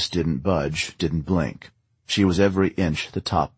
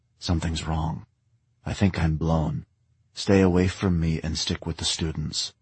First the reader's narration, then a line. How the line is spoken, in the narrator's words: He leaned close to Agnes and whispered